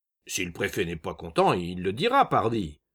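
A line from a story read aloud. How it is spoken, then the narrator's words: Gruff angry grumble. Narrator (French): grommela un tisseur aux larges épaules, l'air violent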